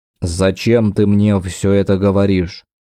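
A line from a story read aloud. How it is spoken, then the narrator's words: Muffled, forced out. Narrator (Russian): он глухо вытолкнул слова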